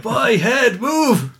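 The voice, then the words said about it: Bad attempt at Scottish accent. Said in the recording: “I can't do a Scottish accent, but anyway, terrible.”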